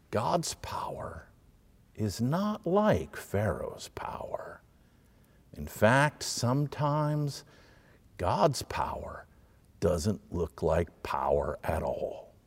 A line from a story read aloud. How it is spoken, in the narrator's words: Exodus whispers